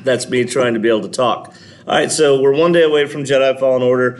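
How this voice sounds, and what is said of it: Strained, fading voice. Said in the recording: “I'm also losing my voice, so that's why I kind of sound the way I do.”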